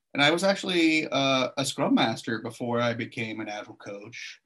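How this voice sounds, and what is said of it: American English accent. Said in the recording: “you might be able to tell from my accent that I'm not an Aussie. I'm actually an American”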